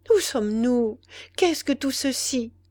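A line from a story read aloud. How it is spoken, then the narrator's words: Timid female question. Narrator (French): demanda-t-elle timidement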